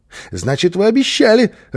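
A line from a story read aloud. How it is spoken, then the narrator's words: Joyful child. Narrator (Russian): радостно подхватил малыш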